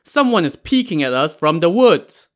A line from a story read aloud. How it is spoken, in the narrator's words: the soldiers in front pointed and shouted